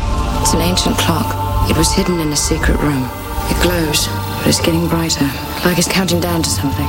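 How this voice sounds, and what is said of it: American actress doing English accent. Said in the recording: “we've got an American actress doing an English accent.”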